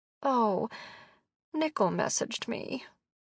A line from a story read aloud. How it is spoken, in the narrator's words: she mumbled